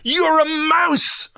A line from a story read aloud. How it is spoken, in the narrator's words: I screamed at him